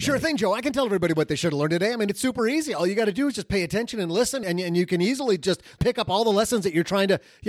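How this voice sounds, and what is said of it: Very fast speech. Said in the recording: “I'm talking so fast”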